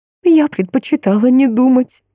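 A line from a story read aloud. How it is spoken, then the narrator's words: Sobbing. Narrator (Russian): всхлипнула женщина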